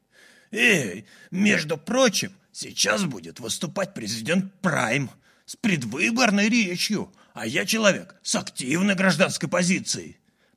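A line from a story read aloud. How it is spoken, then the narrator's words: Offended old man grumbling. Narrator (Russian): проворчал старик обиженным тоном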